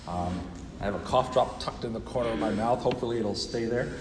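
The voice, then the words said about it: Voice affected by a cold. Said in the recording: “I've been fighting a cold all week. You might be able to hear it in my voice.”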